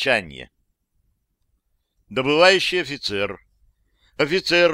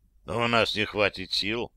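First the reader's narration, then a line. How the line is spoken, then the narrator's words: Grim reply. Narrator (Russian): мрачно ответил Кузнецов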